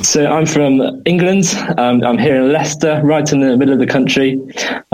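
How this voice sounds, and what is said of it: English accent. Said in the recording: “clearly you have an accent”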